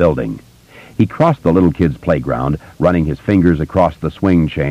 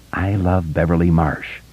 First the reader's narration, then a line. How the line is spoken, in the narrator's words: under his breath, feeling more light-headed and romantic